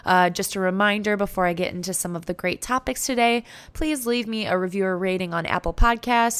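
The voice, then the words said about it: Scratchy, hoarse voice. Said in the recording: “I currently have kind of a scratchy voice ... my voice is still recovering”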